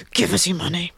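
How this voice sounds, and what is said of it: Exaggerated sultry sexy voice. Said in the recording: “make it sound really sexy ... Is that your sexy voice? That's my sexy voice.”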